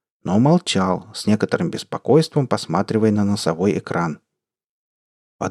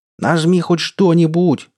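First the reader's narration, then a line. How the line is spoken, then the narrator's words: Yelling. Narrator (Russian): заорал Семен Петрович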